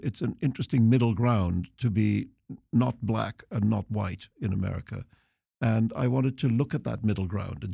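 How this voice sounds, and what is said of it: Civilized British accent. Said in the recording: “you have this very civilized British accent”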